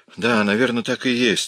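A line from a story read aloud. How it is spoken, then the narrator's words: Relieved sigh. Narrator (Russian): облегченно вздохнул Миш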